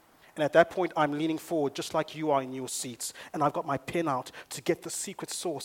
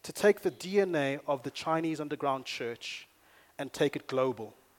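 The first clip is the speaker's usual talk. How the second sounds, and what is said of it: Put-on Chinese accent. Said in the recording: “that's my Chinese accent now”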